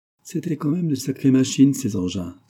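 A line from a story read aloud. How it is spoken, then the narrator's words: Exclaiming. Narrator (French): s'exclame le juge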